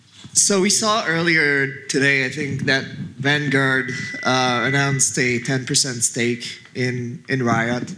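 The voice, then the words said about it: Hoarse, strained voice. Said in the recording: “I'm already losing my voice.”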